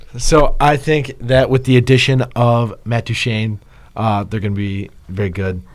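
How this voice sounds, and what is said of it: Usual voice. Nothing is said of it.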